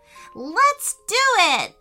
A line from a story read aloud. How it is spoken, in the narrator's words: shouted Payton